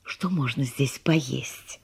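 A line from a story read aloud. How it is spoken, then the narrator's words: Whisper. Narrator (Russian): шепнула она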